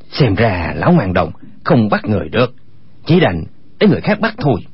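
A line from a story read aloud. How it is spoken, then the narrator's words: Lowered voice. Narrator (Vietnamese): Chu Bá Thông hạ giọng nói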